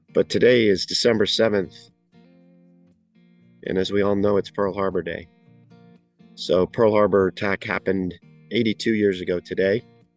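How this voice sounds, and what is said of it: Unwell, under-the-weather voice. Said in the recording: “Sorry for my voice, I'm a little under the weather today.”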